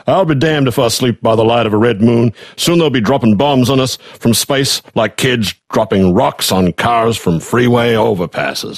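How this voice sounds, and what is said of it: Put-on Southern US accent. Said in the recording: “I will do this in a southern accent”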